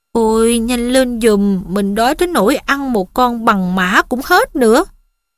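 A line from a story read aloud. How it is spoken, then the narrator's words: Whining. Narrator (Vietnamese): Ron rên rỉ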